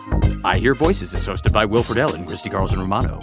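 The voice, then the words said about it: Announcer voice. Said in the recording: “that was my announcer voice”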